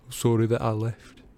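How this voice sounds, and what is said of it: Thick, choked-up voice. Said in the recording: “in a thick voice”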